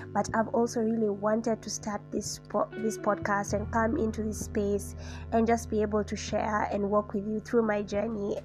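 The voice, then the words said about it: Nasal, congested voice. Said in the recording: “if I sound a little nasally, or is it nasally? It's because I have a really bad cold”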